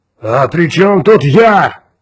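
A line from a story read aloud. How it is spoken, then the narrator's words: Roaring. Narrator (Russian): взревел юпитерианец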